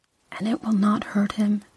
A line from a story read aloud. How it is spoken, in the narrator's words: she whispered